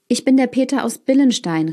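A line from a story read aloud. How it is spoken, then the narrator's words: Boy calling out. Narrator (German): rief der Junge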